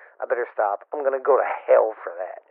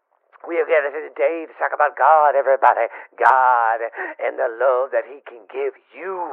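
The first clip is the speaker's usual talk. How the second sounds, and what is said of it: Preachy pastor sermon voice. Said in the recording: “Impersonating a pastor.”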